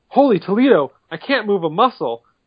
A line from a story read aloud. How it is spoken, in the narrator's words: one of the cops even exclaims